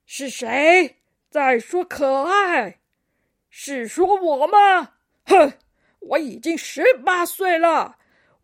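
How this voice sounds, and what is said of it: Aged, old-sounding character voice. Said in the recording (Chinese): “苍老的声音”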